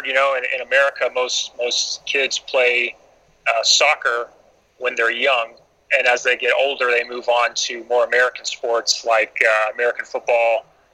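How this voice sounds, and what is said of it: American accent. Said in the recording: “I'm an American, as you can plainly hear by the way I'm speaking.”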